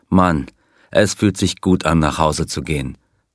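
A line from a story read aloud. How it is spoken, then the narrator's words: Plain. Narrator (German): sagte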